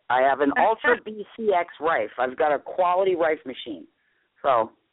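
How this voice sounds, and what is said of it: New York accent. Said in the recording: “I'm from New York, if you can tell by the accent”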